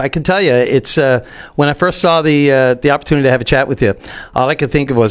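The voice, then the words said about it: Newfoundland accent. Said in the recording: “How's my dialect? ... Yours is pretty spot on. No notes.”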